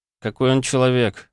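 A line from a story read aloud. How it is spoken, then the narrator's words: Grumbled. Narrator (Russian): буркнул Нестор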